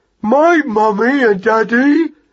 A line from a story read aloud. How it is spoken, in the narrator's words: cried Magnus in an agony